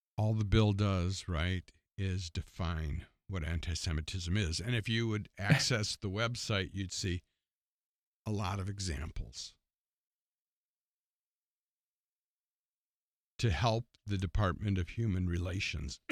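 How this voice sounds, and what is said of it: Strained, fading voice. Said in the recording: “I'm losing my voice. ... I've been talking too long.”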